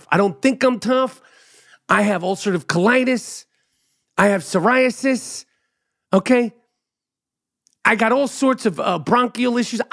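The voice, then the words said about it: New York accent. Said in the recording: “I sound tough because it's a New York accent. ... Most New Yorkers sound exactly like I do.”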